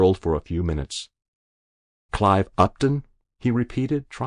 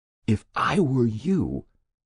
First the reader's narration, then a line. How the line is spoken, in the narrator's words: he whispered